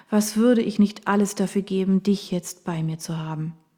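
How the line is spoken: Sighing. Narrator (German): seufzte Kara

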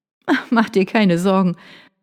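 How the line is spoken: Light laugh. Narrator (German): Vanessa lachte ein wenig

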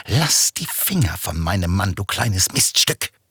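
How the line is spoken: Hissing. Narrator (German): zischte

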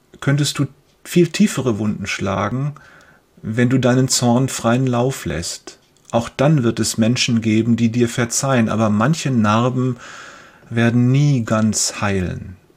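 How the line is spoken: Father continuing. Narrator (German): fährt sein Vater fort

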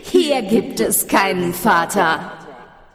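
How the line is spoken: Echoing laugh from darkness. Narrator (German): schallte es lachend aus der Dunkelheit

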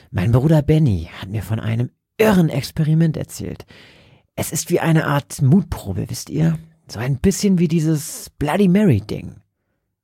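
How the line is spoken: Whispering. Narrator (German): flüsterte Roger

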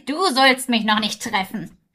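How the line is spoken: Loud laughing call. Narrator (German): die Hexe lachte, dass es gelte und rief

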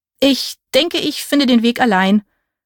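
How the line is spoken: Stammering. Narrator (German): stammelte ich

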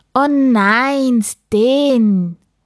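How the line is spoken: Called out. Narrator (German): rief Papa, als er die leeren Kartons sah

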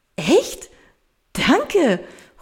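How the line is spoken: Enthusiastic exclamation. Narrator (German): ruft Paula begeistert aus

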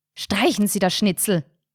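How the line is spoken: Sharp. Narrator (German): sagte Carinas Mutter scharf

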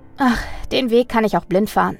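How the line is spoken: Calm reply. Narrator (German): antwortete Mina mit ruhigem Ausdruck und lächelte Hannah müde an

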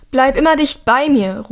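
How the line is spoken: Calling over storm noise. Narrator (German): ruft Hilda Drea über den Lärm des Unwetters hinweg zu

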